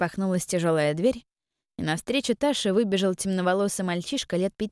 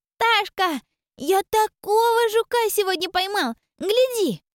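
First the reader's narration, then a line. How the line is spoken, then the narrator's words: Joyful shout. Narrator (Russian): Радостно прокричал он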